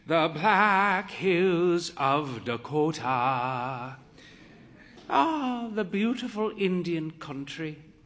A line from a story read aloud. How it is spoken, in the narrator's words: she sighed